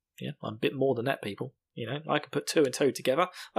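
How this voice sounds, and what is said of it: Smooth British accent. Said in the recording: “a smooth, sensuous British accent.”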